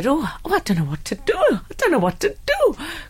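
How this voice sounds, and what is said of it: Put-on Geordie accent. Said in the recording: “That's my Geordie accent... Stick with the comedy, I would.”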